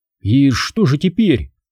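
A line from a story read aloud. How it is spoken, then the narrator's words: Bewildered question. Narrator (Russian): спросила Талла растерянно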